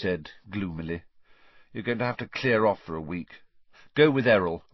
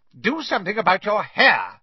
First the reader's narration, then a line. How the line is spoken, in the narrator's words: Aunt Petunia snapped